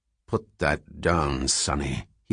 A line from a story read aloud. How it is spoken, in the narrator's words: he growled